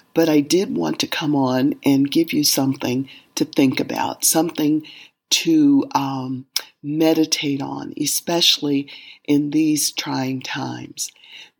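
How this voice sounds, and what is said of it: Hoarse, weakened voice. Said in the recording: “My voice is a little gone today. I'm suffering from laryngitis”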